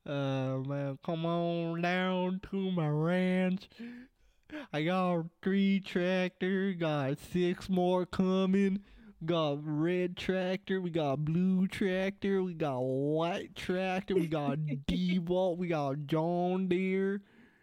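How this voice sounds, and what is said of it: Bad put-on redneck Southern accent. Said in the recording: “You are too Canadian to sound Southern. ... over here trying to be a redneck ... I know I do a shitty redneck accent”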